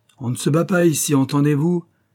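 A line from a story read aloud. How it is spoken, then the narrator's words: Very displeased shouting. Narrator (French): cria un des joueurs du ton le plus mécontent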